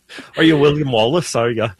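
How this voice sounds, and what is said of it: Deliberately bad Scottish accent. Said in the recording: “my accent in Scottish. Okay. A terrible Scottish accent.”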